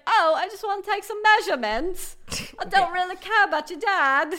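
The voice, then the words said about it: Imitates another person's voice. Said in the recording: “My Adele impression. ... That accent.”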